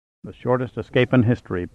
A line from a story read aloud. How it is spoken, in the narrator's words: Pitt muttered dolefully